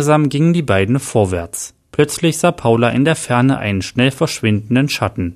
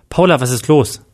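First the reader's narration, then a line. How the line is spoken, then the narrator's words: Fearful question. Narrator (German): fragte Adam ängstlich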